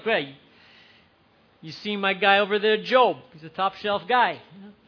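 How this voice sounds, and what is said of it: Put-on Philadelphia accent. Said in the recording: “God has a Philly accent.”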